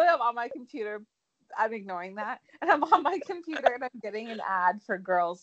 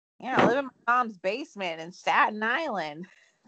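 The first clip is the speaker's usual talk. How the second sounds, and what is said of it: Imitates another person's voice. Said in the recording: “That was a great impression.”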